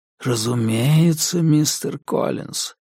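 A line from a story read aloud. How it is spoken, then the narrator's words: Ingratiating tone. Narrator (Russian): вкрадчиво промолвил он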